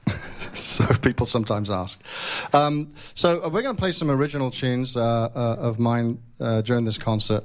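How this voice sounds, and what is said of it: English accent. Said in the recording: “the story is I'm English and I've been in this country since 2005 and I haven't lost my accent”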